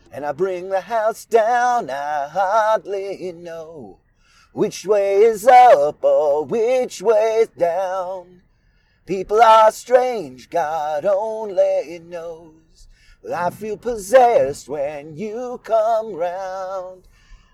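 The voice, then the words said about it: Scratchy singing voice. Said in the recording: “my voice sounded a little bit like this ... it sounds like I'm imitating some scratchy-voiced singer, but it's just my voice”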